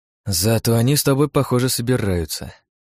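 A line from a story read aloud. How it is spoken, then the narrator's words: Sighing. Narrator (Russian): вздохнул я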